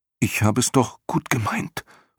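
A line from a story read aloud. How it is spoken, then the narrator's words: Horrified whisper, boy. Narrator (German): flüsterte der Junge entsetzt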